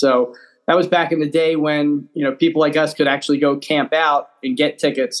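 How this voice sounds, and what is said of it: Slight Philadelphia accent. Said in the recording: “you almost have a Philly accent. It's really weird... I heard Howard Eskin in your voice there”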